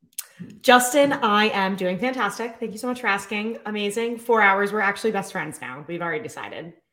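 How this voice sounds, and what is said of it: Slightly sore, hoarse voice. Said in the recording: “my voice is a little sore”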